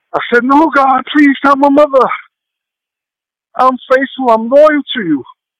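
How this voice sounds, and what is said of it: Emotional, choked-up voice. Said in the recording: “a little bit emotional.”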